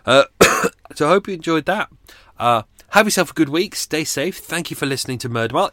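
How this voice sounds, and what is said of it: Sore, strained voice. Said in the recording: “I'm going to rest my voice. My voice is screwed. Sore. Really sore today.”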